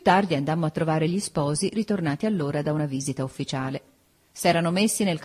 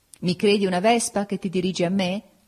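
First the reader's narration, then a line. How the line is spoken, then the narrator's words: Laughing. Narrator (Italian): gli dissi ridendo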